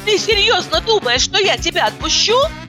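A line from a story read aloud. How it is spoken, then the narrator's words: Shouted. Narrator (Russian): крикнула я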